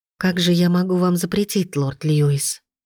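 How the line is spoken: Quiet sly girl. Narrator (Russian): Тихо отозвалась девушка, лукаво

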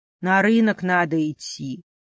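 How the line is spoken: Sad. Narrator (Russian): грустно ответил хозяюшка

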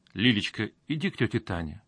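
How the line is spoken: Gentle, affectionate. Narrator (Russian): ласково произнес Мазаев

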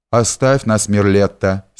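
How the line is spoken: Says dryly. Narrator (Russian): сухо говорит

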